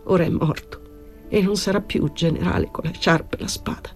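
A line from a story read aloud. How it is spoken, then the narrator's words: Tearful murmur. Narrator (Italian): Con voce di pianto il caporale mormorò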